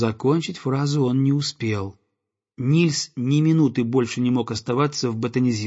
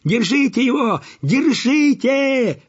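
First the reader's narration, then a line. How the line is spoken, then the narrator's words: Crowd yelling. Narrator (Russian): вопили все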